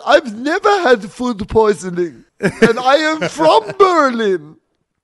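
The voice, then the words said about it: Put-on German accent. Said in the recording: “That's my best German accent, or my best Augustus Gloof accent.”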